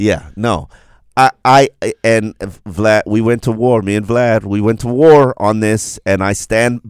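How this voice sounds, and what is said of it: Usual voice. Nothing is said of it.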